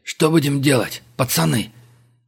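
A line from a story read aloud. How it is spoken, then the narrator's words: Hoarse, anguished wheeze. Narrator (Russian): прохрипел синий от переживаемого Абдулов, извиваясь в своем кресле, как червь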